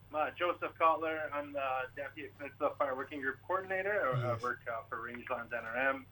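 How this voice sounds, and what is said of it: Canadian accent. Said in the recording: “you got an accent there, brother. Canadian.”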